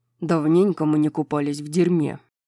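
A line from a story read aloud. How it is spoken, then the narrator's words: Grumbled. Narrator (Russian): проворчал Хант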